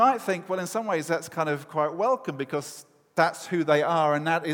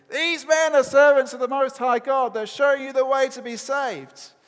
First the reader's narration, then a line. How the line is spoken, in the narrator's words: this girl is following them around shouting